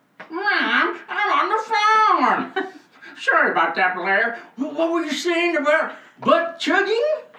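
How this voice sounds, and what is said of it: Poor put-on redneck farmer accent. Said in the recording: “awful at accents ... I turned into like a redneck. Some weird farmer. ... That was no farm accent. That was like a nerd. ... That was a nerd who grew up in the farm.”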